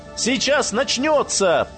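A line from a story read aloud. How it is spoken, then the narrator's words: Shout. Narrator (Russian): прокричал Леонид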